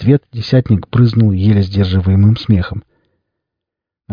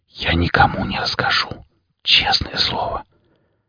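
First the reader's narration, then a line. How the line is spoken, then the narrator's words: Fervent whisper in ear. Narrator (Russian): Саша горячо прошептал ему в ухо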